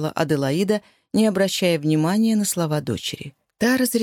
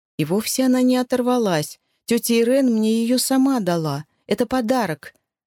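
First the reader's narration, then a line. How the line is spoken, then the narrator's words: Desperate sobbing. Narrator (Russian): отчаянно всхлипывала Аличи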